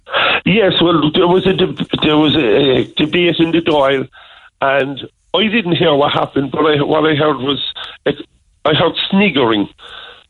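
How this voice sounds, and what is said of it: Cork Irish accent. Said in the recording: “mocking my Cork accent ... I'm proud to be from Cork. I love my Cork accent.”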